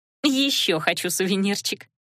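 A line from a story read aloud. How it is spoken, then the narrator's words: Short laugh. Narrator (Russian): хохотнула Лана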